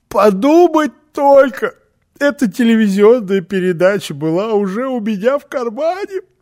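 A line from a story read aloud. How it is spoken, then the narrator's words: Sobbing. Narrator (Russian): всхлипывая, сказала Фрёкенбок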